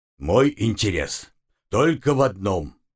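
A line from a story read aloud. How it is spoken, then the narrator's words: Growling. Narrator (Russian): рыкнул Умрун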